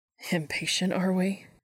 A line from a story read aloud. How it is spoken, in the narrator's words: he teased